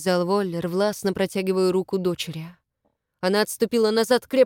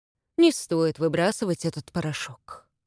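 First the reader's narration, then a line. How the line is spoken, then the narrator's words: Soft. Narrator (Russian): мягко сказал Матиас Воллеру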